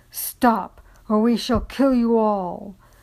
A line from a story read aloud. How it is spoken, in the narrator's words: the black-cloaked one roared